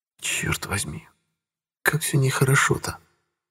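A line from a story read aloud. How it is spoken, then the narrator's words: Exasperated whisper. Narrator (Russian): В сердцах прошептала она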